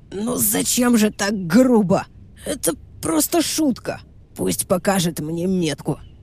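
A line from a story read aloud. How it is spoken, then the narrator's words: Hoarse rasp. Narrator (Russian): прохрипел Верзила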